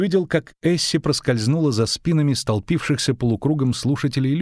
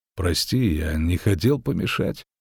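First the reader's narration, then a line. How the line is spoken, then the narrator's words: Bored voice. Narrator (Russian): сказал он скучным голосом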